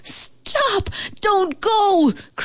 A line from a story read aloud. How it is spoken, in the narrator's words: cried the old house